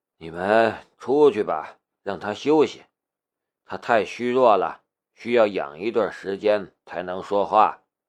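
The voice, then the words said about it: Lazy, languid voice. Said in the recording (Chinese): “用懒洋洋的声音说道”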